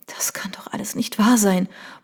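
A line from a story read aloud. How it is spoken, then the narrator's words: Barely audible murmur. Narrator (German): murmelte sie kaum hörbar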